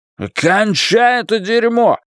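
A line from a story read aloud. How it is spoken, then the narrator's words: Shouting. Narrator (Russian): крикнул Ллойд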